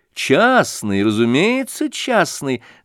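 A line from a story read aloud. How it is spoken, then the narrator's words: Laughing. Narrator (Russian): засмеялись Александра и Аделаида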